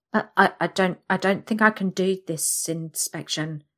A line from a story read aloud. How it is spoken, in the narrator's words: I stammer